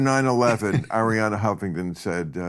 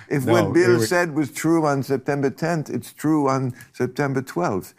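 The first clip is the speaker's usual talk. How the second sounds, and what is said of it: Bad put-on Greek accent. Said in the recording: “That's a terrible Greek accent. ... Like fucking Dracula.”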